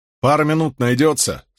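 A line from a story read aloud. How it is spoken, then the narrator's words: Plain. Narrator (Russian): спросил Мэтью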